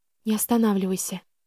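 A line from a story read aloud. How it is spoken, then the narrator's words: Breathed out. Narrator (Russian): выдохнула я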